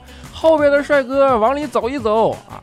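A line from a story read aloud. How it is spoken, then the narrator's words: Shouting driver. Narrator (Chinese): 司机就开始在那喊说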